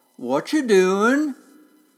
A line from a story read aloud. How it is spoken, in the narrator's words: someone called out in a long, slow drawl